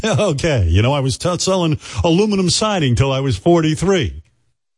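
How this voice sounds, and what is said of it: Imitates another person's voice. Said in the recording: “my Rodney impression... It's just like him.”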